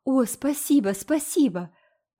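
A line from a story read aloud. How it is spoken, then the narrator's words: Fervently grateful exclamation. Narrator (Russian): воскликнула Энн, как будто Марила оказала ей величайшую милость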